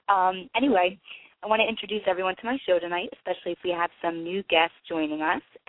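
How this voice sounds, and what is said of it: Congested, nasal voice. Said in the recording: “my voice is a little off, but I think I am coming down with something tonight... I sound a little nasally”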